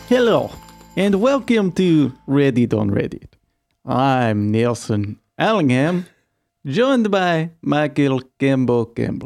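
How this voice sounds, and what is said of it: Put-on Russian Slavic accent. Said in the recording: “It's not bad. I think it's like a middle European Russian you're going for... I feel like it's kind of a combination of Russian, and then a Pennsylvanian Dracula... It's kind of Slavic a little bit... You put an H in yes, which is very Slavic.”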